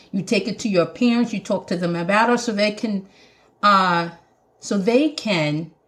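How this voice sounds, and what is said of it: Jamaican accent. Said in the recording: “my Jamaican accent's coming when I get excited”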